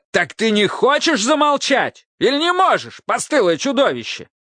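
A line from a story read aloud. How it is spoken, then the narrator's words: Angry yelling. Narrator (Russian): заорал Автоматей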